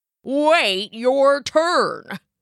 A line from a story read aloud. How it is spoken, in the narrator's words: grunted the left goat